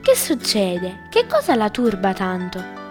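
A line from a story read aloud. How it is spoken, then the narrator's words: Man's gentle question. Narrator (Italian): chiese dolcemente l'uomo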